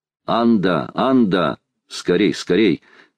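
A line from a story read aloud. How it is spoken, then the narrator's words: Thunderous shout. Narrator (Russian): крикнул громовым голосом Талькав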